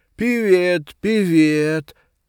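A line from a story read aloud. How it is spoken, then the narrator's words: Loud smiling greeting. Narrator (Russian): заулыбался и всем громко сказал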